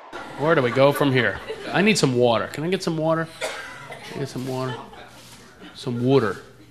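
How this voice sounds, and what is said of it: American East Coast accent. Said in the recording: “I'm from back east. That's why I talk like that.... People make fun of my accent all the time.”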